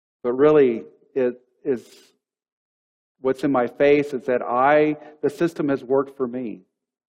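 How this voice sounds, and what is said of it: Texan accent. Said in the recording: “you hear a Texan accent”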